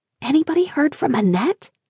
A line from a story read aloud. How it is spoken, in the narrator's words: I whispered to Denise